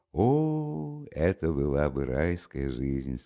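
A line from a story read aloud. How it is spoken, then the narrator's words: Said with a sigh. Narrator (Russian): сказал Чичиков, вздохнувши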